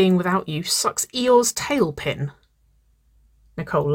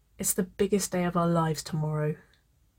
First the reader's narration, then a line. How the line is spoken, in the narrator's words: she whispered